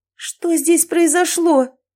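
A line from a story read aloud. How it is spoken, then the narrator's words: Horrified exclamation. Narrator (Russian): воскликнула в ужасе Алисия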